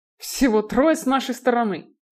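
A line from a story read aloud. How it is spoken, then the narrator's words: Irritated. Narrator (Russian): раздраженно закатил глаза Стерлинг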